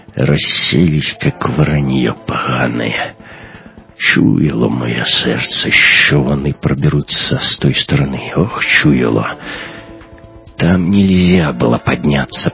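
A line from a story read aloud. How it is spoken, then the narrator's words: Groaning. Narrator (Russian): простонал капитан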